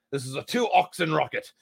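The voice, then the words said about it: Put-on American Cockney accent. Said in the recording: “I don't know why I had that accent. American Cockney.”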